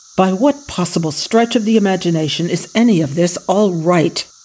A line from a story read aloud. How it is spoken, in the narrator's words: Ethan snapped